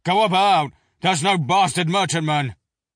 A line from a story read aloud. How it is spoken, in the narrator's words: barked the order